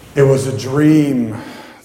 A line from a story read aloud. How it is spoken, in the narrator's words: the officer said